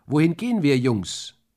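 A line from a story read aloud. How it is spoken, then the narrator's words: Bellowing with full force. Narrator (German): Ich brüllte aus Leibeskräften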